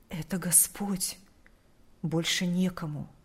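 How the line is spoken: Whispered reply. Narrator (Russian): Прошептал он в ответ

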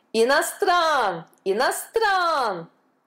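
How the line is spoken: Crowd yelling. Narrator (Russian): вопили индусы

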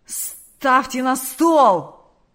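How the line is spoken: Growled. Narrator (Russian): прорычал Карп

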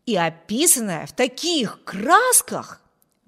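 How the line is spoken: Exclaiming. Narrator (Russian): воскликнул Виберт

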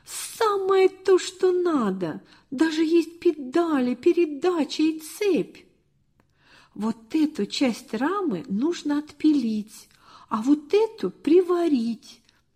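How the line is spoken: Exclaimed in unison. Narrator (Russian): чуть не разом воскликнули

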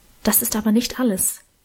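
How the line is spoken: Whispered. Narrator (German): flüsterte Emma dann

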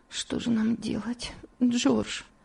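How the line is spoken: Weak voice. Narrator (Russian): слабым голосом произнесла Элиза

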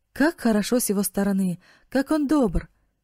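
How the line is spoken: Exclamation. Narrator (Russian): воскликнул Марк

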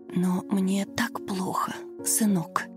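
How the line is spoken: Old woman whispering in pain. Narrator (Russian): шептала пожилая женщина, корчась от боли

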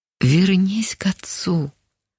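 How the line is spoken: Quiet, calm, familiar voice. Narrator (Russian): тихо прозвучал спокойный до боли знакомый голос

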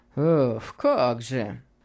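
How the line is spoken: Obliging friend mumbling. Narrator (Russian): пробормотал его услужливый приятель

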